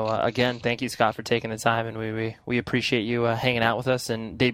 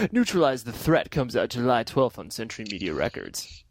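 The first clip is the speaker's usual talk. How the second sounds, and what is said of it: Radio DJ announcer voice. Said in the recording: “here's my DJ voice again”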